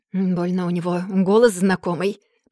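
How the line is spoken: Muttering. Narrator (Russian): пробормотал Раут

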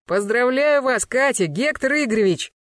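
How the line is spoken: Joyful loud shout. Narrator (Russian): Радостно заорал на весь участок

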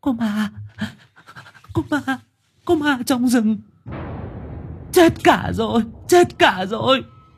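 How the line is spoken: Frantic wailing. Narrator (Vietnamese): Cô gái miệng không ngớt kêu gào

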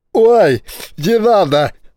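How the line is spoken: Howling. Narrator (Russian): взвыл бомбардир

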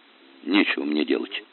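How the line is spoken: Grumbling. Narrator (Russian): буркнул Федя

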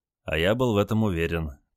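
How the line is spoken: Quiet reply. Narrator (Russian): также тихо ответил Олег

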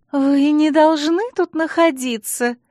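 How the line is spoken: Breathless exclamation, no reproach. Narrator (Russian): с придыханием воскликнула Алекс, и в ее голосе не было ни тени упрека

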